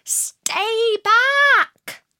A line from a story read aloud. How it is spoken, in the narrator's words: The other two shouted